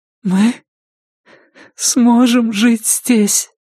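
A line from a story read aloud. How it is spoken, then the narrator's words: Sobbing. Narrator (Russian): всхлипывала она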